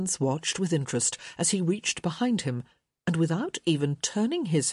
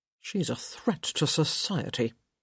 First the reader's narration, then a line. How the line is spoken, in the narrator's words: he muttered